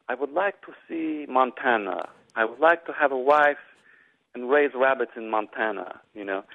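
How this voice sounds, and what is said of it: Put-on Russian accent. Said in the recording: “in his best Russian accent”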